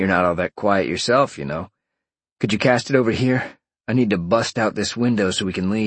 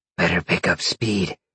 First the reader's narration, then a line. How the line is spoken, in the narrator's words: Roxy murmured